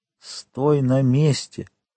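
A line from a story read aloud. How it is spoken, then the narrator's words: Whisper. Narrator (Russian): шепотом сказал ему Монте-Кристо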